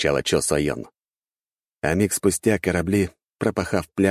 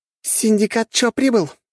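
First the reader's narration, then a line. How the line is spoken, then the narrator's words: Predatory exclamation. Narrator (Russian): воскликнула и хищно оскалилась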